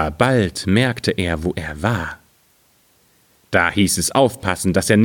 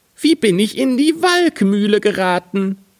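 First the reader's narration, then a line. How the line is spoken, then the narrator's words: Shouted. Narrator (German): rief er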